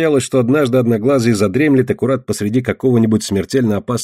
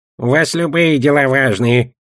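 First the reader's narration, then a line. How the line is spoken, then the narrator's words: Grumbling goblin. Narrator (Russian): проворчал гоблин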